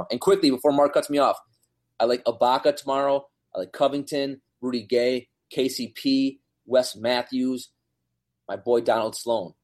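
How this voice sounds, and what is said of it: Breathless, rapid speech. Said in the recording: “Man, I'm out of breath.”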